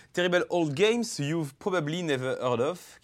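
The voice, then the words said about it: Speaks English with a foreign accent. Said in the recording (French): “vous excuserez mon accent anglais”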